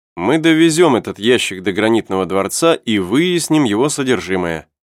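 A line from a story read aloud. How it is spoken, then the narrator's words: Plain. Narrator (Russian): сказал Сайрес Смит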